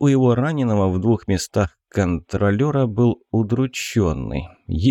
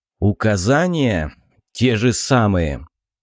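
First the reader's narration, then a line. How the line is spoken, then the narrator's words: Angry growl. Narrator (Russian): Со злостью прорычал Шмель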